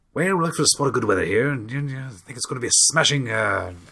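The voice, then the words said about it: Put-on upper-class British RP accent. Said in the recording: “class British accent. BBC English ... the received pronunciation”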